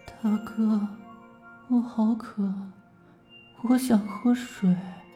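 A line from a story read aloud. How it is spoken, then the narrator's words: Woman mumbling. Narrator (Chinese): 那个女子 嘴巴里嘟囔着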